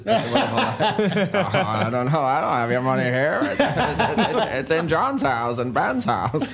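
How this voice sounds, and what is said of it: Jimmy Stewart impression. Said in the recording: “I can do Jimmy Stewart ... I'll just do James Stewart instead ... It's very good.”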